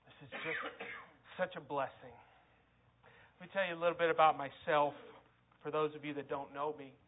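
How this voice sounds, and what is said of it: Tennessee Southern American accent. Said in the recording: “We live in Tennessee, as you can probably tell from the accent.”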